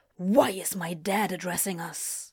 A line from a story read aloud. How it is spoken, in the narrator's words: He hissed